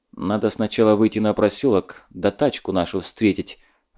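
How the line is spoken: Dry reply. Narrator (Russian): отозвался сухо Закамолдин

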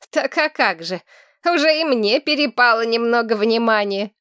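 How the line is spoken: Snorting. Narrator (Russian): хмыкнула Сарна

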